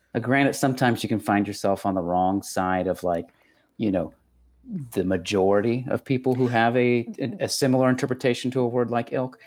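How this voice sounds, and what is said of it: Texan accent. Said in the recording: “That's just my accent. ... That's just the Texas coming out.”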